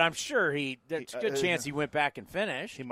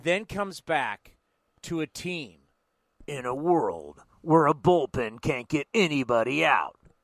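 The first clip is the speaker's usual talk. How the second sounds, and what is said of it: Movie trailer voice. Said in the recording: “It's my movie trailer voice.”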